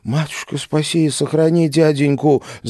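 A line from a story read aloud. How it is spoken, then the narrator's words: Desperate whimper. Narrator (Russian): отчаянно заскулила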